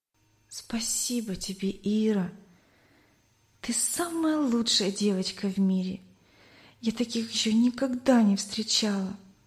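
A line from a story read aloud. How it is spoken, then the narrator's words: Tearful whisper. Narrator (Russian): прошептала, прощаясь Надя сквозь слезы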